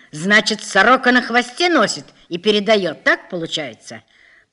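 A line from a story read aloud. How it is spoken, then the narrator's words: Angry shouting. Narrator (Russian): Полковник разозлился, кричал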